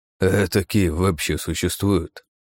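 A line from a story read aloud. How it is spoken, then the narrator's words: Grim smirk. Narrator (Russian): мрачно усмехнулся Джонсон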